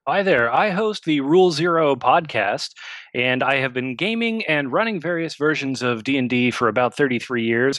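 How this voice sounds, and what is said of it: Polished radio announcer voice. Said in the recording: “Hell of a radio voice. Did you hear that radio voice?”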